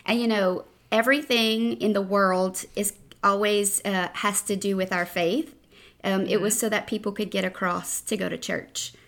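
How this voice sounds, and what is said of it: Strong Southern Louisiana accent. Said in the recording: “whose accent is really a lot stronger than mine ... your accent just makes me feel kind of homey”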